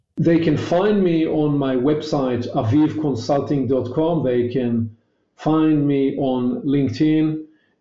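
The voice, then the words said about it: Hebrew-accented English. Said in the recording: “my elegant Hebrewish accent”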